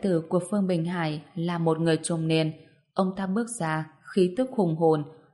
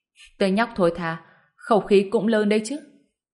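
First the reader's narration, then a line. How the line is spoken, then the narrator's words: Furious laugh. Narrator (Vietnamese): Phương Bình Hải tức đến mức bật cười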